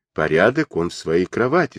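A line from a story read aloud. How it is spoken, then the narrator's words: Plain. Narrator (Russian): сказал он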